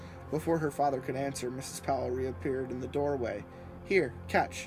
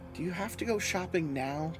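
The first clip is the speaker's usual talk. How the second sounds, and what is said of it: Small, timid girl's voice. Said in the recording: “Chris asked in a tiny voice.”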